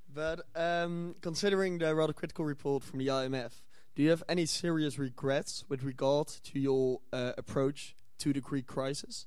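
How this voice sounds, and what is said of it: Dutch-accented English. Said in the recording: “I'm a private citizen from the Netherlands ... I recognise the accent, yeah.”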